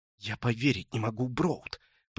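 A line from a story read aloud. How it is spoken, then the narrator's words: Hissed. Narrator (Russian): прошипела Талия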